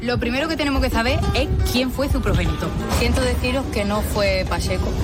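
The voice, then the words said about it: Sing-song distinctive regional accent. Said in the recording (Spanish): “Siempre con esa musiquilla, siempre con ese acento tan suyo”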